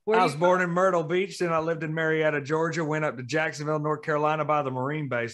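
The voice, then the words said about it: Southern US accent. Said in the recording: “a Southern accent”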